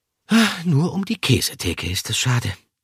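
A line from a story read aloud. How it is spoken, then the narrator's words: Sigh. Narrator (German): seufzte er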